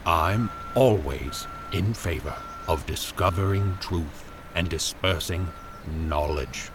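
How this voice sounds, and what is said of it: Dry, slow drawl. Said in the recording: “in a dry voice ... He lingered over each word, delivering them with care ... he drawled”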